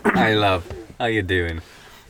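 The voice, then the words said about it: Poor fake British accent. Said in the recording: “talking in a fake British accent ... That is not British.”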